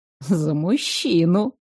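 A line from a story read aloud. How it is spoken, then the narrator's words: Mysterious voice. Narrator (Russian): загадочным голосом добавила Аурелия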